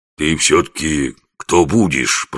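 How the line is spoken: Grumbling. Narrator (Russian): проворчал он

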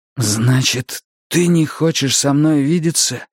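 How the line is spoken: Forced-out words. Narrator (Russian): выдавил он

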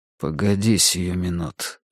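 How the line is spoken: Muttered through gritted teeth. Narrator (Russian): сквозь зубы пробормотал Тригрей

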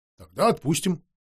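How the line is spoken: Calm. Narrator (Russian): спокойно сказал мастер

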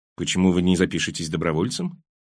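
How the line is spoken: Dry question. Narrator (Russian): спросил я сухо

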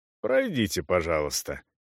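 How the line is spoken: Plain. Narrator (Russian): сказал он

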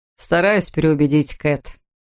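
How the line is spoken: Chuckling. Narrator (Russian): хохотнул Эд

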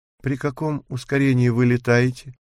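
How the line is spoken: Sighing. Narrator (Russian): вздохнула Ники

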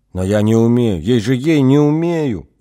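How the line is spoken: Trembling voice. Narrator (Russian): дрожащим голосом отвечала Хена

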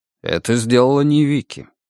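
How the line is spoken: Calm answer. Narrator (Russian): спокойно ответил Даниэль

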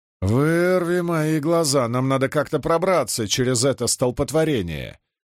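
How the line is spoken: Displeased grumbling. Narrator (Russian): недовольно заворчал Беслан

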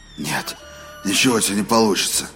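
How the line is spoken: Muttered. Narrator (Russian): пробормотал Роланд

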